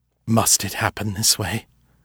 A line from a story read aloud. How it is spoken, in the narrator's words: His voice trembled in spite of himself